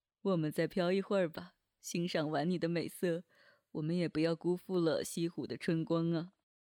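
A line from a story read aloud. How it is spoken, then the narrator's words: Amused inner voice. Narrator (Chinese): 心里笑着说道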